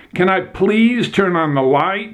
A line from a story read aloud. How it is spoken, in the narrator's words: shouted